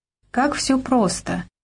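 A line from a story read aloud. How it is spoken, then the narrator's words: Sorrowful sigh. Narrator (Russian): горестно вздохнула она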